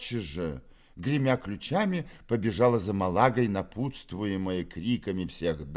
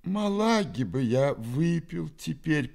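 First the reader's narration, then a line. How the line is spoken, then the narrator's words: Groaning. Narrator (Russian): простонал Фома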